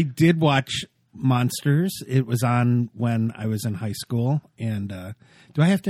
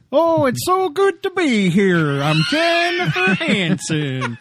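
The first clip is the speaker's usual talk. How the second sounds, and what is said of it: Bad Italian accent, Swedish Chef-like. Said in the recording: “a weird Swedish chef ... I was going for Italian. I really cannot do accents”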